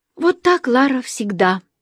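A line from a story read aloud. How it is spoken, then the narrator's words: Sighing. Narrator (Russian): Инга вздохнула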